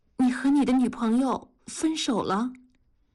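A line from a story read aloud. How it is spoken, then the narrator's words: Trembling voice. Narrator (Chinese): 文丽声音哆嗦着说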